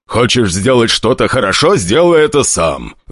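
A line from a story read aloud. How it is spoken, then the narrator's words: Gruff growl. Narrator (Russian): рыкнул старатель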